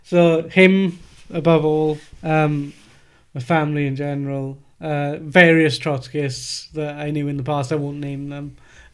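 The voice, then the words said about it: Welsh accent. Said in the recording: “hearing my own accent ... it's Welsh podcast”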